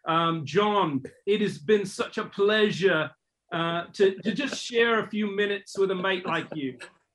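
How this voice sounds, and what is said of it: Fake English accent bordering on Australian. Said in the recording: “he has a pretty good English accent bordering on Australian ... his fake accent”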